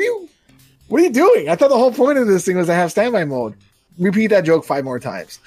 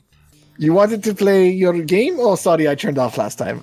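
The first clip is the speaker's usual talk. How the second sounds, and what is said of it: Put-on Portuguese accent. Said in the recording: “This is a Portuguese accent, not like a weird Asian one, even though it sounds that way”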